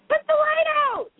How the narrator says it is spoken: he shouted

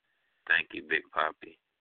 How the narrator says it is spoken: she says in a sweet, sultry voice

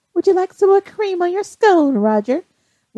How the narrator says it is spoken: Brianna, feeling a little bit playful, says in a mocking voice

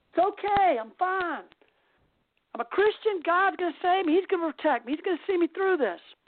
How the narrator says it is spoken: he screams to the man in the helicopter and says

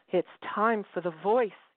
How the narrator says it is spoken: cried

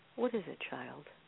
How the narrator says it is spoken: Her voice swaddled me in flannel

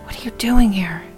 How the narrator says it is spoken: whispered

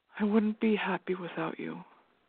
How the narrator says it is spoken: he whispered

